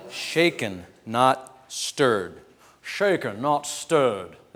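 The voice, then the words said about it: Sean Connery impression. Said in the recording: “That was my Sean Connery impersonation”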